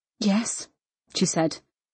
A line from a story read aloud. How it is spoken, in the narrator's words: her voice breathy and nervous